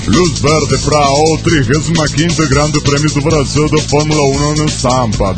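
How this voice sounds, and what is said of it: TV network announcer voice. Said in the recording (Spanish): “voz de locutor de cadena O Globo”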